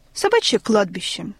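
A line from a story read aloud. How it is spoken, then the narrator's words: Matter-of-fact tone. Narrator (Russian): сказал Гиеныч будничным тоном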